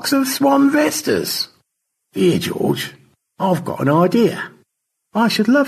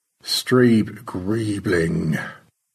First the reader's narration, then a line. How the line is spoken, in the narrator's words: Stanley murmured